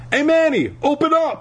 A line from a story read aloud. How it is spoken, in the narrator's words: I shouted